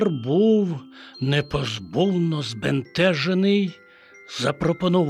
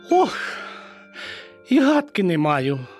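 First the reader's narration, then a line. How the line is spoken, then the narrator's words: Sorrowful sigh. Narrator (Ukrainian): скрушно зітхнула Мишка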